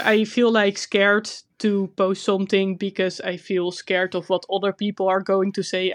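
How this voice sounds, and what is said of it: Dutch accent in English. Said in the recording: “my Dutch accent is terrible”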